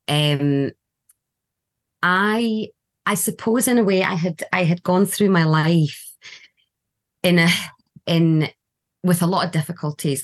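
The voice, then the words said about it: Scottish accent. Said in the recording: “adopted to Scottish adopting parents and they were from Glasgow... I've been here for a very long time, so the accent”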